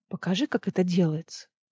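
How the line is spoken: Quiet request. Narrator (Russian): тихо попросила Эмери

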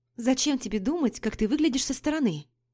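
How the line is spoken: Exclamation. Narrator (Russian): воскликнула я

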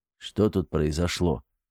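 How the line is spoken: Weak-voiced question. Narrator (Russian): слабым голосом спросил Артем

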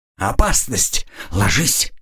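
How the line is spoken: Sudden low shout. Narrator (Russian): вдруг негромко крикнул Градиил

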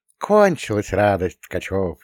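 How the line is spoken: Snide, mocking. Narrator (Russian): ехидно

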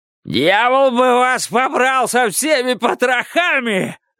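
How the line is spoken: Furious yelling. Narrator (Russian): Заорал Кларенс

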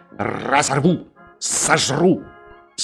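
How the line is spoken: Dog growling, snapping. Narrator (Russian): Пес щелкал зубами и рычал

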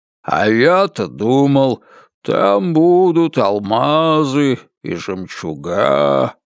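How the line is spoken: Disappointed drawl. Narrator (Russian): протянул он

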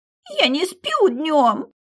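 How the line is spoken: Tearful, sobbing and sniffling. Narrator (Russian): Следом всхлипы и шмыганье носом

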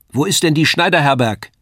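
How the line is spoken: Woman calling across. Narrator (German): rief die Frau zu mir herüber

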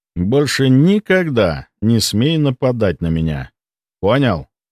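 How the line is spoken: Calm voice. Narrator (Russian): Я говорил спокойным голосом

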